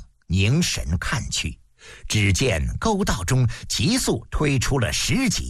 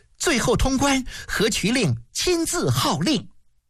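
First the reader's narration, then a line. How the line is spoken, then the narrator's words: Happy village girl exclaiming. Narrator (Chinese): 村姑高兴地叫了起来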